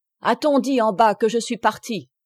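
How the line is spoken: Priest exclaiming. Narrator (French): s'écria l'abbé

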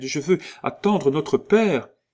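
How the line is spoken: Little girl exclaiming. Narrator (French): s'écria la fillette

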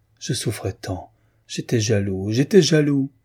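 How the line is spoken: Heavy sighing. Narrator (French): Il disait avec de grands soupirs

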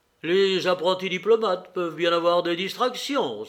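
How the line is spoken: Exclaimed. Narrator (French): s'écria Georges

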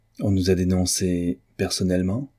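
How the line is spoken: Calm question. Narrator (French): demanda Gretzky d'une voix calme

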